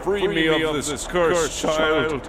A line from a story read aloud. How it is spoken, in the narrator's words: I screamed at the top of my head